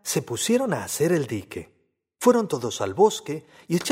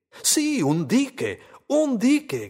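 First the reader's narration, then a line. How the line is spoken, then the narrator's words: Group shouting. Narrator (Spanish): gritaron todos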